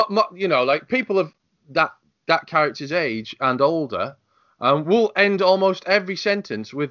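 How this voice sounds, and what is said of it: Usual voice. Nothing is said of it.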